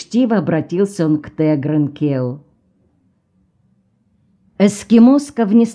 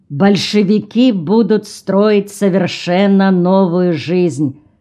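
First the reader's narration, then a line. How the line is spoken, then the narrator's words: Loud hungry reply. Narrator (Russian): громко ответил проголодавшийся Тегран Келл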